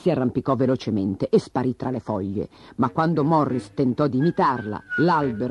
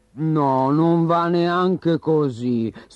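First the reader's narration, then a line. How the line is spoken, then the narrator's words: Sighed. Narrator (Italian): sospirò Morris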